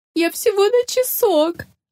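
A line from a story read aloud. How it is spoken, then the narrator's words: Sobbing, muffled by apron. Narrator (Russian): она зарыдала, прижимая передник к лицу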